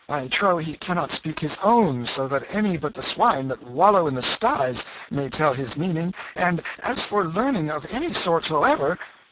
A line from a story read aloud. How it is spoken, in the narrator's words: cried Tom, off his guard for the moment